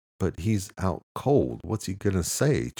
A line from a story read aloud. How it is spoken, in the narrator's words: Charles answered